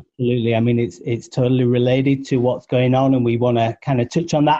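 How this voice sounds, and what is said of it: British accent. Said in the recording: “you might be able to tell from my accent that I'm not actually from around here. ... you're going to hear a couple of British accents”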